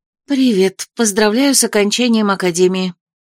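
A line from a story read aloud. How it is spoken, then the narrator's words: Breathy exhale. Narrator (Russian): выдохнула я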